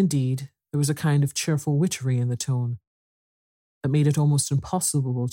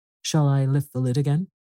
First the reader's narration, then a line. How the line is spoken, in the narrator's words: asked Pandora